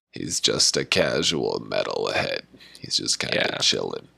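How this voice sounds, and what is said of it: Relaxed creaky vocal fry voice. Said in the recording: “this is a voice that I do often, like just kind of chill on the vocal fry.”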